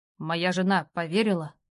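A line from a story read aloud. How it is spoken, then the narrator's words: Gloomy question. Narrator (Russian): мрачно спросил он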